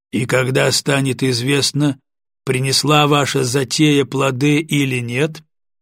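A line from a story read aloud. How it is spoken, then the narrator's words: Dry question. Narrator (Russian): сухо спросил Игорь Валерьевич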